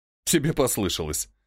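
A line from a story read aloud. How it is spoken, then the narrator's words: Raven laughing. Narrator (Russian): рассмеялся ворон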